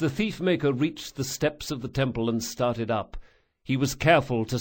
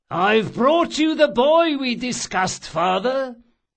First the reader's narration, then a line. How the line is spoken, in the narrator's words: the thief-maker announced, loudly enough for several passers-by to hear him